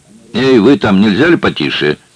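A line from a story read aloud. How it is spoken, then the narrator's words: Shouting cashier. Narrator (Russian): крикнул кассир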